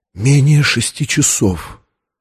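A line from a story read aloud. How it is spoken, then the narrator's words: Whispered. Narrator (Russian): Виктория прошептала Лэнгдону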